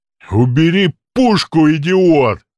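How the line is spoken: Thunderous booming voice. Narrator (Russian): Громовой голос прогремел от двери, заставив замолчать даже стонущих раненых

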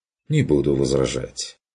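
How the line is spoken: Agreeing. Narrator (Russian): согласился Курт

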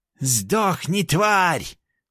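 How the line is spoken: Furious shout. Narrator (Russian): кричал ушастый

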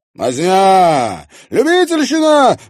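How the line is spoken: Wailing with mad laughter. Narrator (Russian): вопил Влад безумно хохоча

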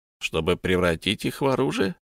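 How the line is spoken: Mocking question. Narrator (Russian): поинтересовался Самарказ насмешливо

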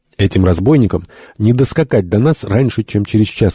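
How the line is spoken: Plain. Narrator (Russian): сказал Фергюсон

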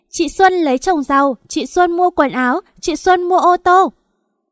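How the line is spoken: Children shouting. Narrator (Vietnamese): Con Hạ với con Thu chúng nó hét

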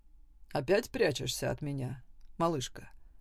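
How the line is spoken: Quiet. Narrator (Russian): произнес Саймон тихо

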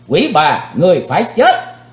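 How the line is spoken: Deep loud shout. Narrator (Vietnamese): Chí Tôn trầm giọng quát lớn

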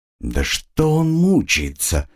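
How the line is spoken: Exclaiming. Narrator (Russian): воскликнула Тифлинг

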